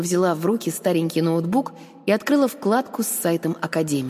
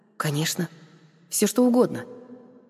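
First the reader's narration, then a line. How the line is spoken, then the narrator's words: Quiet answer. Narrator (Russian): тихо ответила я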